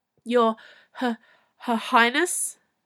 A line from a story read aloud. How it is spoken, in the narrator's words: said the Chamberlain, catching his breath in a wheeze